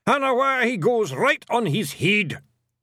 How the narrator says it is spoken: yelled

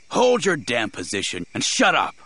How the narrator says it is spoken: the man snarled

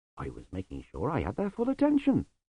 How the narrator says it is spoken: said Lutzer smoothly

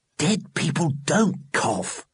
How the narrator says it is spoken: hissed Johnny

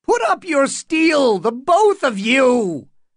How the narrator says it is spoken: Butterwell screeched

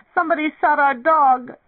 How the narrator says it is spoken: Face streaked with tears, one of the boys cried

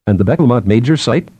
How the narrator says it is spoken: Binet said

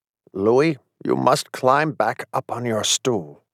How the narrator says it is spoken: In a low voice in my ear, the Lincoln simulacrum said

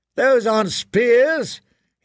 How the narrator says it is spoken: he shouted

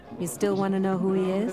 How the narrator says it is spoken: Caroli asked dryly

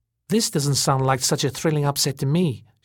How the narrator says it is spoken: she said dryly

